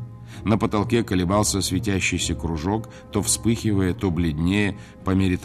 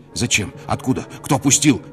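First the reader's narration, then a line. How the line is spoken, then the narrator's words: Weak instinctive shout. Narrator (Russian): инстинктивно крикнул он, бессильно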